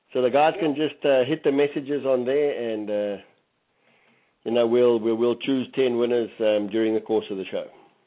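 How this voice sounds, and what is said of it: African-accented English speech. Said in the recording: “So African accent is a little bit funny. People often say to me, what?”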